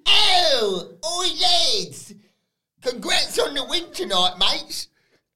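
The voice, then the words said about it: British accent imitation. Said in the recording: “does a bit of a British accent here.”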